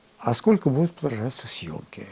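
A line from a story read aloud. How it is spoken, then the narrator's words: Very quiet voice. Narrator (Russian): у него был тихий голос, он очень тихо говорил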